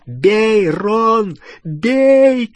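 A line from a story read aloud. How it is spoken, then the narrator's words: Shouting. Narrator (Russian): кричал Гарри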